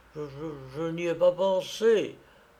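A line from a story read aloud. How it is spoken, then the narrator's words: Stammered. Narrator (French): bafouilla Marbourg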